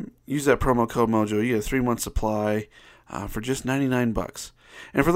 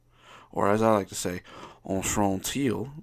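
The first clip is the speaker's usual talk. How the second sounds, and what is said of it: Slight put-on French accent. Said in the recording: “with a little bit of a French accent there”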